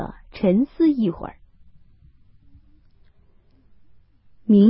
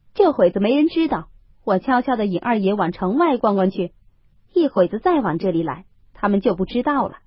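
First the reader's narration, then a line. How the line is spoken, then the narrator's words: Laughing. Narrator (Chinese): 明烟笑道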